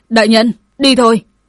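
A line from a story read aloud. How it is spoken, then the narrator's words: Shout through gritted teeth. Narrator (Vietnamese): cắn răng quát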